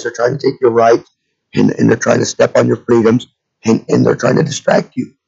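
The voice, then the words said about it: Hoarse voice from a cold. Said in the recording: “my voice is shot this week, but I've got a little bit of a cold ... kind of get a shitty voice”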